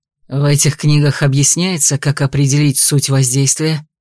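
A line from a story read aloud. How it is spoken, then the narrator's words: Growling. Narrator (Russian): прорычал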